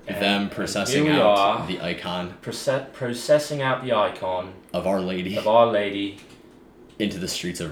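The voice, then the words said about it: Put-on British accent. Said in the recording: “I can do a British and, accent.”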